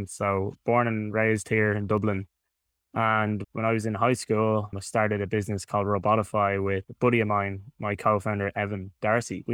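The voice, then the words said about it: Irish Dublin accent. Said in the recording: “I'm from Dublin in Ireland, in case anyone hasn't been able to tell from the accent.”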